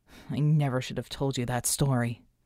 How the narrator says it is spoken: he muttered

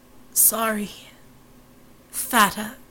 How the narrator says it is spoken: he gasped, drooling blood

